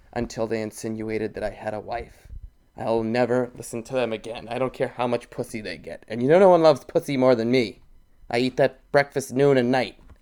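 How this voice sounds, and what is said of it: Put-on gay voice impression. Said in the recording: “doing that gay voice ... that's a spot on impression of that guy ... the fat guy ... Fat bald one”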